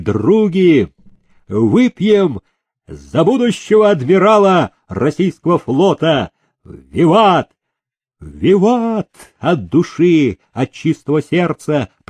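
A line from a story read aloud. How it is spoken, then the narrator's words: Guests shouting a toast. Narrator (Russian): прокричали гости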